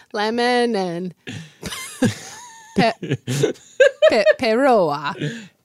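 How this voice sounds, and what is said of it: Put-on Italian accent. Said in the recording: “Do you like my Italian accent?”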